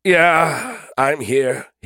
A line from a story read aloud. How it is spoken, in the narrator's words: groaned